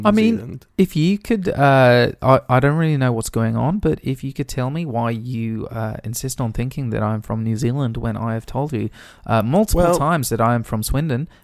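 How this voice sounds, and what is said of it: New Zealand accent. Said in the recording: “sound like you got a New Zealand accent.”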